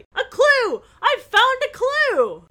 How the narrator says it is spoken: Bess called out excitedly

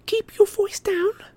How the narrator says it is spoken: Hermione begged him

